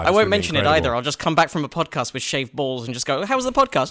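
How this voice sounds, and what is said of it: British accent. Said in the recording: “you can hear by the accent, he is an expat. He's a Brit, just like me. He's a real Brit.”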